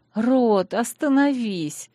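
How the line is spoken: Pleading. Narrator (Russian): взмолилась

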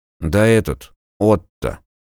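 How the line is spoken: Grumbling. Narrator (Russian): проворчал тот

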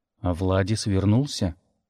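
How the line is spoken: Chillingly calm. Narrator (Russian): Голос Дара звучал спокойно, но это спокойствие было страшнее крика

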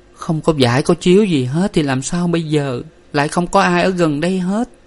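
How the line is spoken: Whimpering. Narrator (Vietnamese): Nguyệt rên rỉ

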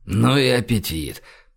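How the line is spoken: Mutter. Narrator (Russian): пробормотал он

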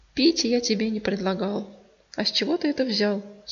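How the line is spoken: Plain. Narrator (Russian): спросил он

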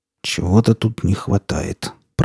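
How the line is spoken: Muttered. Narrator (Russian): пробормотал

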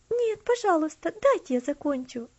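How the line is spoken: Pleading. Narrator (Russian): взмолилась она

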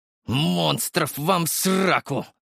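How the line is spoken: Hoarse wheeze in pain. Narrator (Russian): захрипел я от боли

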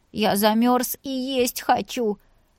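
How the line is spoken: Whining. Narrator (Russian): захныкал Вася

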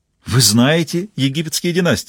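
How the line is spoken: Joyful smiling exclamation. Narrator (Russian): радостно улыбнувшись, воскликнул Робинсон

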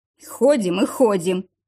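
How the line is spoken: Grumbling. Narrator (Russian): ворчал бывший

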